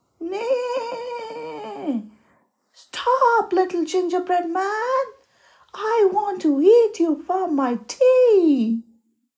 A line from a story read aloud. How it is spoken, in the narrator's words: shouted the horse